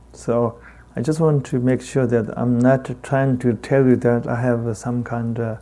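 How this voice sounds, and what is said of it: Heavy Tibetan accent. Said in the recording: “I got a heavy Tibetan accent ... please don't get rid of your heavy accent. We love your heavy accent.”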